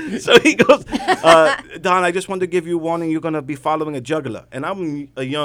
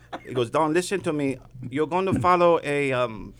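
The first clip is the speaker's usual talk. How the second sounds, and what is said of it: Imitates another person's voice, sounds Irish. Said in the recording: “my really bad Saad impression ... If you knew Saad, it's dead on ... I thought he was Irish.”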